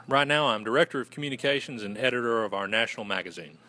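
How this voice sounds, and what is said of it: Southern American accent. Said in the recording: “The Southern accent, I love it. You're a Southern gentleman. ... I love the accent.”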